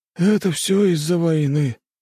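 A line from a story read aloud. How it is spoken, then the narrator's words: Sighing. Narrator (Russian): вздохнул тот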